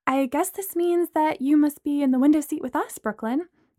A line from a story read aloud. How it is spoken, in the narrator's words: Amanda said brightly